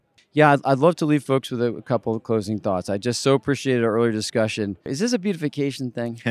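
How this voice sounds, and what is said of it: Usual voice. Nothing is said of it.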